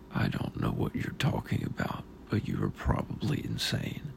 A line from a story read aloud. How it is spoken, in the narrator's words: he said quietly